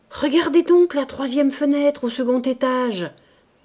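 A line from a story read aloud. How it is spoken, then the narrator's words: Sudden exclamation. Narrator (French): s'écria tout à coup M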